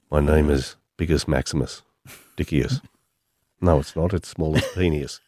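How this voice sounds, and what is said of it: Imitates another person's voice. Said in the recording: “is that your Russell impersonation? ... I would sort of go more like this”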